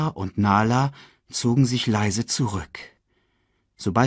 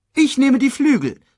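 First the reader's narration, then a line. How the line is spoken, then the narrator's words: Calling out. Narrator (German): rief Shensi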